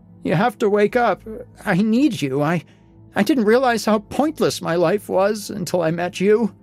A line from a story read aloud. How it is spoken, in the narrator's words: I said between sobs